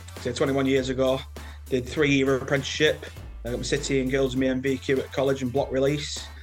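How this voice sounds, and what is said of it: Lancashire English accent. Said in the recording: “As you can tell from my accent, I'm from Lancashire.”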